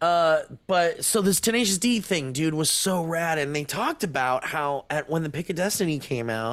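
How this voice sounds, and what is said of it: Usual voice. Nothing is said of it.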